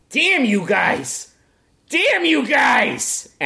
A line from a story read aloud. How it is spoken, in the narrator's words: Marvy yell